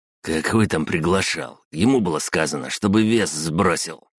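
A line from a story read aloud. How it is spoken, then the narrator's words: Displeased wheeze, red-haired man. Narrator (Russian): просипел недовольно рыжий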